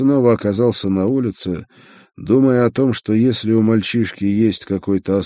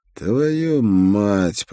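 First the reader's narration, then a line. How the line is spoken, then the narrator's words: Muttering. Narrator (Russian): пробормотал я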